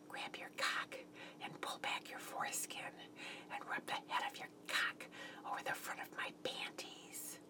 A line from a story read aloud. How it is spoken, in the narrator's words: whispered